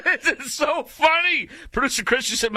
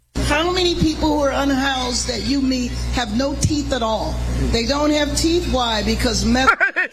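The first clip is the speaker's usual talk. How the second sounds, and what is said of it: Imitates another person's voice. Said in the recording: “I'd have to work on my impersonation of her ... my impersonation wasn't too bad”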